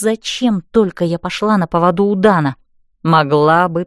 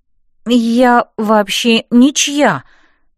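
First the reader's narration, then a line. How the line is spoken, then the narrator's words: Miserable moan. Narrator (Russian): простонала я несчастно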